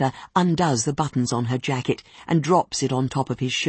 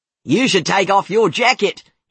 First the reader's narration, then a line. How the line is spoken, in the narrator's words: he yells